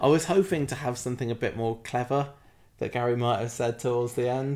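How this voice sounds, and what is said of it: Usual voice. Nothing is said of it.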